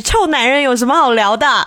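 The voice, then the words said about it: Imitating Lin Daiyu's voice. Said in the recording (Chinese): “我这个时候要要用黛玉的声音说一句”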